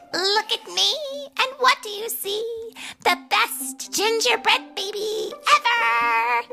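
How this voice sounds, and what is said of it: Loud sung character voice. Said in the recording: “singing in a loud voice.”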